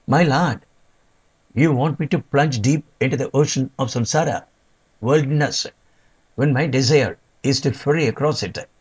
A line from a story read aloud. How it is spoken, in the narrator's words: Janaki exclaimed